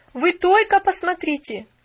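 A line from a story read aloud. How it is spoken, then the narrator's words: Exclamation. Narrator (Russian): воскликнула она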